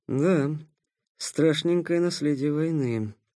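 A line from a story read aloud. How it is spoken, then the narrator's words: Quiet. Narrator (Russian): тихо сказал Никита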